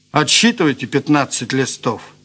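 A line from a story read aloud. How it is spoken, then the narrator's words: Calm. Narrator (Russian): спокойно сказал Морозов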